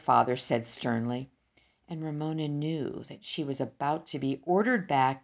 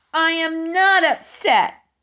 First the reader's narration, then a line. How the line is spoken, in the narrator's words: yelled Ramona